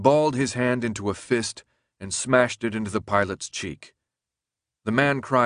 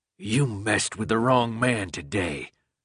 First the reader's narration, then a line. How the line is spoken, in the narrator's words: the pilot said in a low, vicious voice